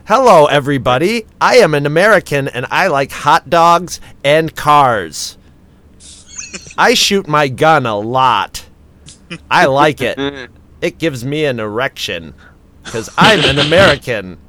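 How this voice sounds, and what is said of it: Exaggerated fake American accent. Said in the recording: “my favorite fake accent in the whole world is an American doing a British person doing an American accent”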